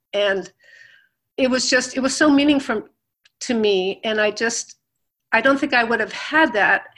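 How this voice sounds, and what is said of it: Teary, emotional voice. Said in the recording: “I'm kind of getting a little teary about it now”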